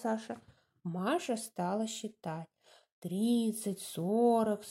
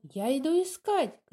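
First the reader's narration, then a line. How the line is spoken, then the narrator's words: Shout. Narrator (Russian): крикнула она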